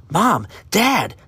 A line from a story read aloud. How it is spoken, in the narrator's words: Aiden cried